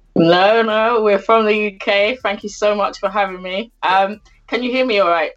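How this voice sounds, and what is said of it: British accent. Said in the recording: “with a UK accent?”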